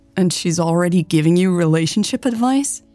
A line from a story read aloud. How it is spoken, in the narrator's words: Hannah asked, her tone amused